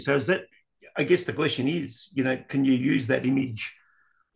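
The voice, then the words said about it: Hoarse, strained voice. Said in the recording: “I'm losing my voice here a little bit.”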